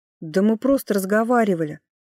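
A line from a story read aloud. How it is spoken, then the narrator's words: Indignant interruption. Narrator (Russian): Возмущенно перебила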